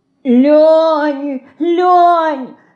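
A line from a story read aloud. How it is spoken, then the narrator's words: Sobbing call, coming closer. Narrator (Russian): Слышится уже где-то ближе, вперемешку с рыданием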